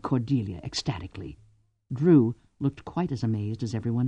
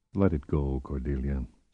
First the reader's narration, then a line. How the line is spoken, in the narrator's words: said Vorkosigan quietly